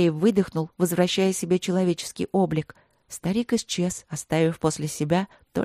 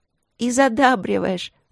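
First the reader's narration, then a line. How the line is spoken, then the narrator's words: Laughing. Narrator (Russian): рассмеялась она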